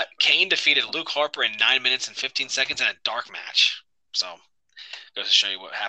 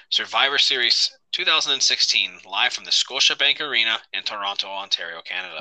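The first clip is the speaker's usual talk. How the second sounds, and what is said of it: Canadian-accented pronunciation. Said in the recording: “I appreciate the Canadian accent there. That's the proper way to pronounce it.”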